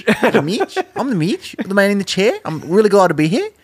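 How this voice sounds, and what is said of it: Put-on New Zealand accent. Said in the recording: “I want to do Australian or New Zealand. Yeah. He's got to have a really ... New ... fun ... Zealand ... Accent.”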